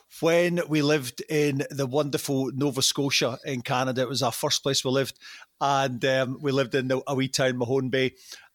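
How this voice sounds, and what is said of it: Scottish accent, some dropped sounds. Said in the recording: “You haven't lost your accent too much, mate. Not at all. I see a few I's getting dropped in there.”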